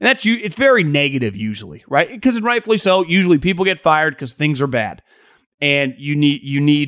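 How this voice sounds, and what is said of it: Usual voice. Nothing is said of it.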